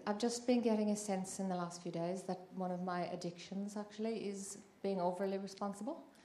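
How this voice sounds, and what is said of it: Noticeable non-native accent. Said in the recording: “a lovely accent you have.”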